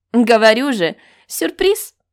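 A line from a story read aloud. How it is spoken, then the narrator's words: Laughing. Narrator (Russian): Смеясь, я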